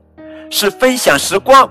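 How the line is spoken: Loud. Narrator (Chinese): 塔碧莎大声说

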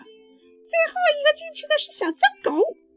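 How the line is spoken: Shouting. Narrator (Chinese): 小熊哥哥嚷着

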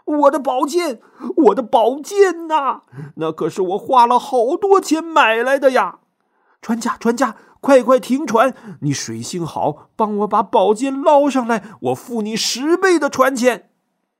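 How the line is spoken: Frantic shout. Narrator (Chinese): 这楚国人可急坏了，大喊

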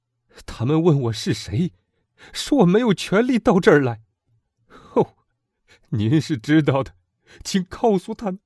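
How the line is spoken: Loud. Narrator (Chinese): 莫里尔大声道

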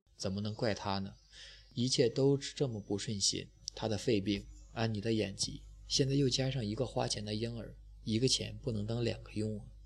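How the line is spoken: Long sigh. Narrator (Chinese): 爱丽丝长叹一声

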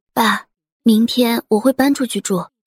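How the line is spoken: Soft. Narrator (Chinese): 简若曦轻声的说

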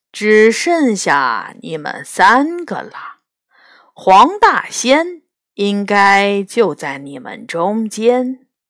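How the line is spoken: Slow, deliberate. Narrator (Chinese): 谢志慢慢说道

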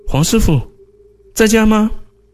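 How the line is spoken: Old man calling from yard. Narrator (Chinese): 老司机叫黄学明，在院子里喊了这么两声

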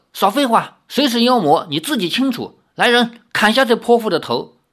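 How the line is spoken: Angry shout. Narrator (Chinese): 黑苗士兵一声怒喝

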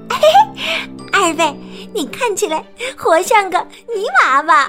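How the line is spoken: Laughing. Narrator (Chinese): 小兔子笑着说

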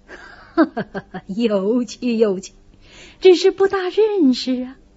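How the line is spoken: Laughing. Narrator (Chinese): 贾政不禁笑道

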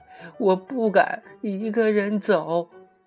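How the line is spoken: Crying child. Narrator (Chinese): 一个路稍远一点的孩子竟然哭起来

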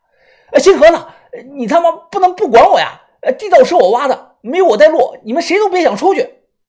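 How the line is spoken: Terrified shout. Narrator (Chinese): 我眼神惊恐的立即大喊

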